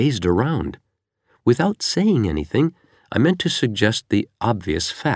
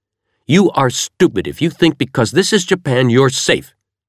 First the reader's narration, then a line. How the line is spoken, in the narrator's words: snapped